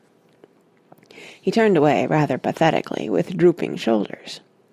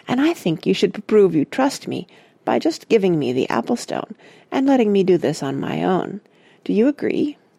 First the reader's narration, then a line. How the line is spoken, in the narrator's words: he added crossly